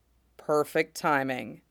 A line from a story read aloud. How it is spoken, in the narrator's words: Pons murmurs